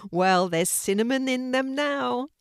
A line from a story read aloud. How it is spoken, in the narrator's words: Kelti started to giggle as she said